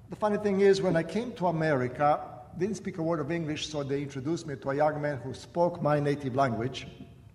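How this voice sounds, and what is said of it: Croatian accent in English. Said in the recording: “My accent comes from the fact that I was born and raised in what is today called Croatia. And I was 15 years old when I came to America.”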